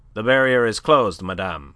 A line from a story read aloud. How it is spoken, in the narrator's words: she was curtly informed